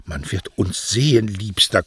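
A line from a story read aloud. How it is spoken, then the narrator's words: Panting. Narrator (German): keuchte Beatrice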